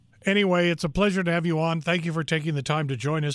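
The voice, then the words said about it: Hoarse voice. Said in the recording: “I've somehow gotten a little bit hoarse”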